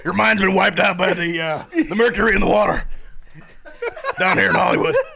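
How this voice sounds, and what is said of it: Imitates another person's voice. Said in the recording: “who are you doing an impression of?... Alex Jones”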